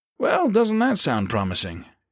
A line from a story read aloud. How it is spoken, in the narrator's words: Hurst said dryly